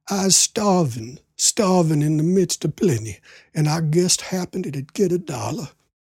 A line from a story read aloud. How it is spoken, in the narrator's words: he wheezed out weakly